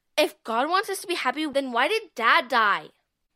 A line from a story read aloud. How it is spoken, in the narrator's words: Charlotte asked bitterly